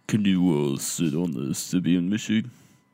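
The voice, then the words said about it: Imitates another person's voice, not well. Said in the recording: “I try to be Howard Stern ... That's my Howard impression ... You need a little working on that, buddy.”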